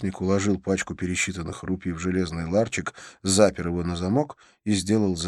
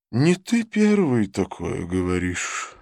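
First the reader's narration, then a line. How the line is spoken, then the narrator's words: Sigh. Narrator (Russian): вздохнула тетушка Луна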